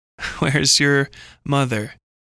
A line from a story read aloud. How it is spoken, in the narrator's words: he chuckled, and his laughter flowed into the men around him like poison